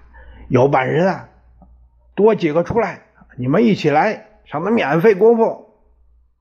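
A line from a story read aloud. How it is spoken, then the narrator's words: Shouting. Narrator (Chinese): 他喊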